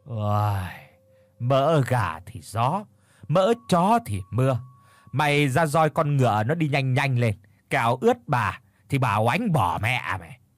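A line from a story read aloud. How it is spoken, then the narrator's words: Old woman's sighing mutter. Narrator (Vietnamese): mụ thở dài chép miệng rồi lẩm bẩm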